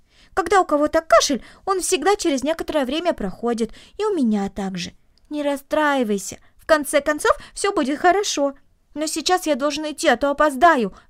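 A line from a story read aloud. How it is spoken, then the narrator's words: Exclaiming. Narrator (Russian): воскликнул он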